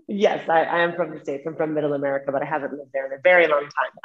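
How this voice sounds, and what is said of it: American English accent. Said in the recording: “from your accent, you're from the United States?”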